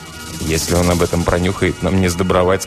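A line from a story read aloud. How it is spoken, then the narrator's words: Plain. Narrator (Russian): сказал Сэм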